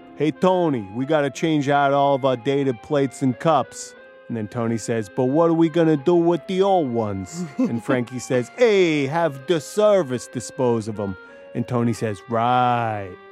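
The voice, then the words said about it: Weak Sopranos mobster impression. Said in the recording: “we've all seen The Sopranos, right? ... not a great impression”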